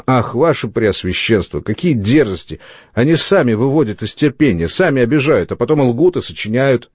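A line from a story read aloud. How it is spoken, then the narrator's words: Bitter exclamation. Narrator (Russian): Фермор … с горечью воскликнул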